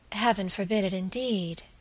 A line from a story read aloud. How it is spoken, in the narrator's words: she murmured